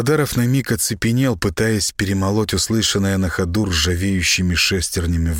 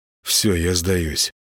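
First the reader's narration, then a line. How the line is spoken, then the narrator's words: Faint mumble. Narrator (Russian): промямлил Гена, чувствуя, что вот-вот потеряет сознание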